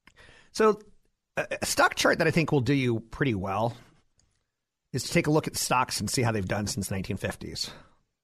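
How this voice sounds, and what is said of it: Slight Southern American accent. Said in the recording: “if I kind of sound like there's some Southern accent in there”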